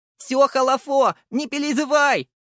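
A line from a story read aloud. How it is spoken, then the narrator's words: Shouted with a smile. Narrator (Russian): прокричал и улыбнулся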